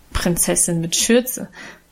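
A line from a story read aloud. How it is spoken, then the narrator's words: Good-natured laughing mockery. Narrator (German): spottete Guste gutmütig lachend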